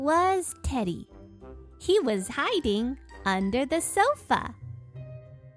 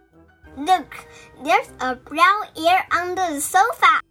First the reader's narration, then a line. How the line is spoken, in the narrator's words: I shouted